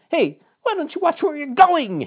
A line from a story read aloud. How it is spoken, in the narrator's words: blurted out